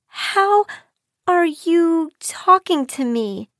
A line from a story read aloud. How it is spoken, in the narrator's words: she stammered